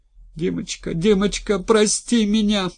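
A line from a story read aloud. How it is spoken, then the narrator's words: Girl sobbing. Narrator (Russian): рыдала девушка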